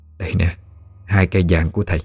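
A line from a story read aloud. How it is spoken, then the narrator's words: Gentle old woman. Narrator (Vietnamese): Bà nhẹ nhàng nói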